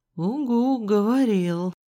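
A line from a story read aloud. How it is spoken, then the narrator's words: Sighing. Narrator (Russian): вздохнул Рыжик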